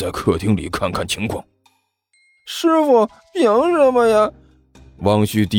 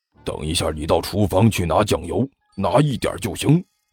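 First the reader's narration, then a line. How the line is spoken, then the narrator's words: Hushed low voice. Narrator (Chinese): 他迅速压低声音，对着身边的汪旭低声说了一句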